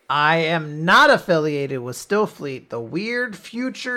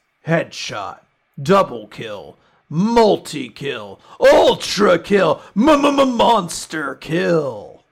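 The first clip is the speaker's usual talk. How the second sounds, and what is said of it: Video game announcer voice. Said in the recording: “Unreal Tournament announcer voice. ... Hurt my voice a little bit doing that.”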